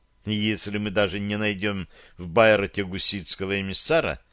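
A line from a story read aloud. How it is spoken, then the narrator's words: Sighing. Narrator (Russian): вздохнула Вероника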